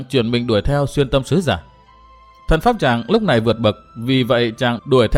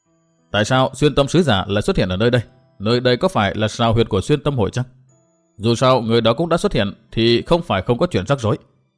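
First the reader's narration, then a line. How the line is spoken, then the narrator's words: Surprised mutter. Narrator (Vietnamese): Chàng ngạc nhiên lẩm bẩm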